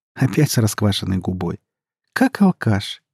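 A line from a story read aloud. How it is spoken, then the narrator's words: Giggling. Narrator (Russian): хихикнула она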